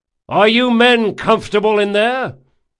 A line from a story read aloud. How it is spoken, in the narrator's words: Locke shouted to be heard above the din